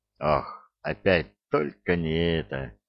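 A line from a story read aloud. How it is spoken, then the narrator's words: Groaning with pinched noses. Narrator (Russian): простонали Икинг с рыбьеногом, зажимая носы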